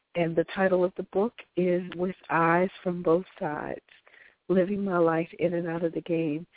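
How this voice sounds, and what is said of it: Strained, congested voice. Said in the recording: “sorry for my voice tonight, but these allergies and a cold has really been working me”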